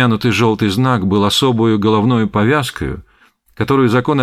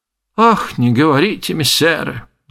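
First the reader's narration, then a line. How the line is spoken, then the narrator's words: Old woman sighing. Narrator (Russian): вздохнула старуха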